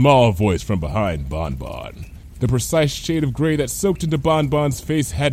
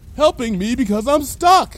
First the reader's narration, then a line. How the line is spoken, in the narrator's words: Lyra shouted through the window